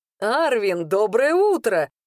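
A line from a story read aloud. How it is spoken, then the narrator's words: Joyful proclamation. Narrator (Russian): радостно провозгласил Кируш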